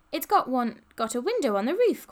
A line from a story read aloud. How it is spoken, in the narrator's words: cried Polly